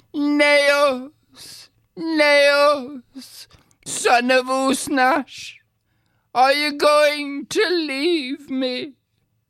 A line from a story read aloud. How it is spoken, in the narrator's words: Then Deirdre cried again